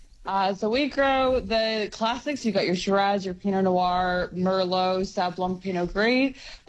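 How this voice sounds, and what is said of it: Canadian accent with some Australian. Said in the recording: “we've got a little North American accent there ... We've got a Canadian accent. ... you've got the mixed one too. You've got a little bit of Aussie thrown in there too. ... your international accent”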